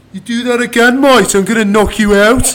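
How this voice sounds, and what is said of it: Coventry accent imitating another man. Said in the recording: “That's a Coventry accent. That's a genuine Coventry accent.”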